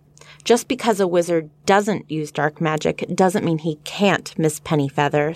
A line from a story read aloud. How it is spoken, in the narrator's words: snapped Professor Binns